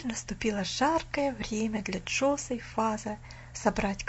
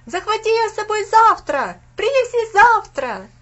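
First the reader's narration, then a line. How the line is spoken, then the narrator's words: Group shouting. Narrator (Russian): закричали Винзи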